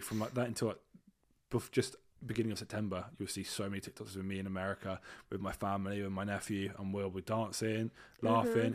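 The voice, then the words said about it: British English accent. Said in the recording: “I am British. ... they love the accent. ... when they hear my accent, they're going to be shook ... oh my God, that's sexy.”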